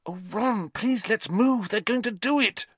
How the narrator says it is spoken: Hermione breathed

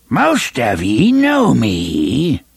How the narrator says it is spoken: cried, in a rusty voice which stopped just short of stridency

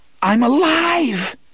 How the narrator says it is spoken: half of his mind rejoiced, screaming with relief

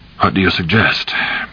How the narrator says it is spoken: Cap said calmly

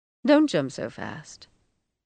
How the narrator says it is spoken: Rose Madder said in a strange, patient voice

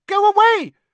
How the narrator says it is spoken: Hermione squeaked

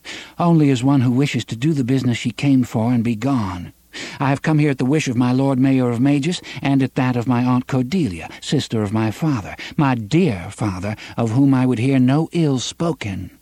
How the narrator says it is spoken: Susan replied evenly

